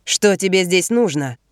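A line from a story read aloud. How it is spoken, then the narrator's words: Angry question. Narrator (Russian): сердито спрашивает один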